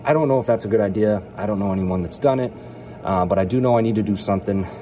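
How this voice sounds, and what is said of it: Boston-area American accent. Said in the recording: “I'm going to guess your accent's from Boston, some in that area. Uh, I don't know for sure though”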